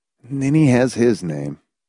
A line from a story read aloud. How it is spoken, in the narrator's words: Hamilton pointed out gently